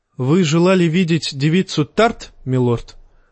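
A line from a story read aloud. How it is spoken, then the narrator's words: Plain. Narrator (Russian): спросил сир Лорус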